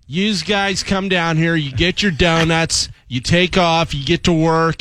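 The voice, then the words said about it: Put-on Philadelphia accent. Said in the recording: “That's a perfect Philly guy right there. ... That is perfect Philly.”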